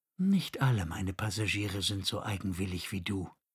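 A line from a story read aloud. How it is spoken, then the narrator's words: Gentle retort. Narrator (German): konterte die Amme sanft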